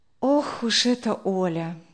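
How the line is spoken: Sigh. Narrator (Russian): вздохнула Вера

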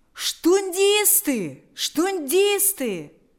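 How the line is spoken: Crowd shouting. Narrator (Russian): закричали люди

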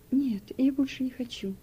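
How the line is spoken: Refusing, softly crying. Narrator (Russian): отказался он и тихо заплакал

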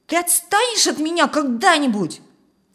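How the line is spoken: Yell while struggling. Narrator (Russian): Федя отбрыкивался и руками, и ногами, потом заорал

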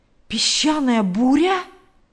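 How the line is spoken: Exclamation. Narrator (Russian): воскликнул Билл

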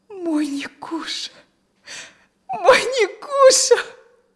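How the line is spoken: Sobbing, crying. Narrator (Russian): всхлипнула она и заплакала

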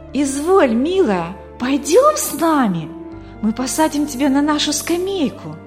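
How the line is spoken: Generous, eager exclamation. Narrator (Russian): воскликнула Мина в порыве великодушия

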